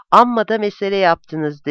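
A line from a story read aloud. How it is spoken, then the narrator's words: Plain. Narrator (Turkish): dedi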